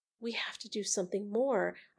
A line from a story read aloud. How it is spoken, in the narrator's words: I whispered